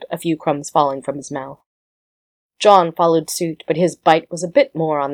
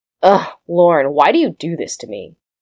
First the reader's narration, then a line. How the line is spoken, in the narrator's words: Evan caught Rodney sneering